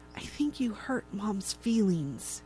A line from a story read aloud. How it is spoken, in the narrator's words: Antonia, who's younger, wearing mouse ears and tail, whispers to Kylie